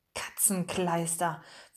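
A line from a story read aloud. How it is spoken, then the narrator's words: Whisper. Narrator (German): flüsterte Picardou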